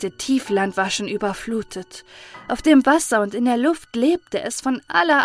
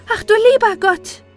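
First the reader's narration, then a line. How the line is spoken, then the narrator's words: Calling out. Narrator (German): rief Maren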